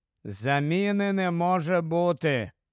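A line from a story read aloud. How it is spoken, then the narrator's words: Tired. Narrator (Ukrainian): втомлено мовив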